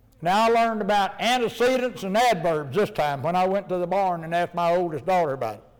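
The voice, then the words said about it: Hillbilly American accent. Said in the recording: “my hillbilly accent”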